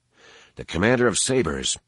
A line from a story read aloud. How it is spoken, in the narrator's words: said quietly